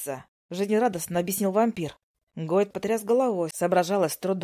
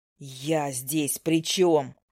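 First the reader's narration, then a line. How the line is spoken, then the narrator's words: Irritated interruption. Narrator (Russian): раздраженно перебил Гойд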